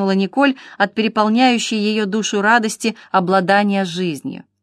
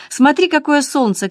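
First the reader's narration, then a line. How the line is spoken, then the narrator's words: Shout. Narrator (Russian): крикнула Николь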